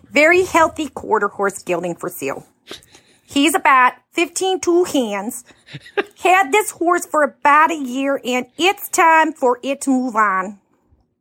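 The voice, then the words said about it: Bad put-on Minnesotan accent. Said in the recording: “a really bad ... Minnesotan accent.”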